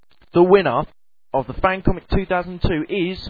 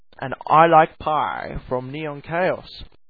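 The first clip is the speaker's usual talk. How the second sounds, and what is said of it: Funny put-on voice. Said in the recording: “in that funny voice”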